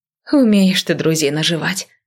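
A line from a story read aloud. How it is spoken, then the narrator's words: Sigh. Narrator (Russian): вздохнула я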